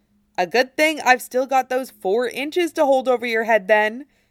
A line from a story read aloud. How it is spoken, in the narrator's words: he counters cheerfully